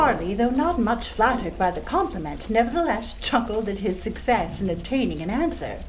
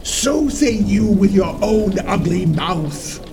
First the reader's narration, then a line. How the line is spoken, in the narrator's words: growled the head